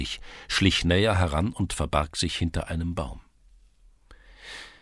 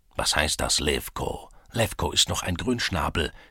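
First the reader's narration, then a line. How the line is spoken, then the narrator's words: Tall man croaking half-voiced. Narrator (German): krächzte der hochgewachsene Mann mit halber Stimme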